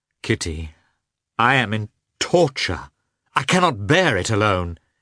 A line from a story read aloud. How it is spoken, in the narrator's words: cried in a despairing tone